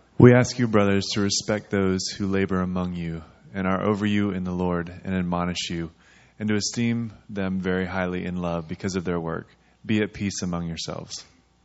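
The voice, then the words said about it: Polished radio-style reading voice. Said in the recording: “You have a radio voice.”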